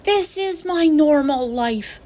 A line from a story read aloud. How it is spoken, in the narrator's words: Nim shouted